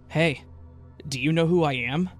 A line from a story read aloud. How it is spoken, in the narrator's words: In a strangely eager tone, he said